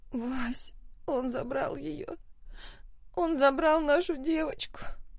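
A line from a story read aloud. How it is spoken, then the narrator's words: Hoarse rasp. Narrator (Russian): Хриплю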